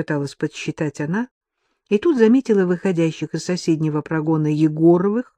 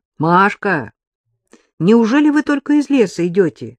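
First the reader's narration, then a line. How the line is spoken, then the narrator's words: Cheerful gasp. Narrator (Russian): весело ахнула Вероника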